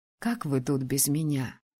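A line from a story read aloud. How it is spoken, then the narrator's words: Trembling question. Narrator (Russian): дрожащим голосом спросила я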